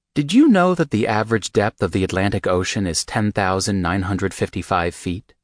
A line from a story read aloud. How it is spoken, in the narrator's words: He asked calmly, ignoring my anger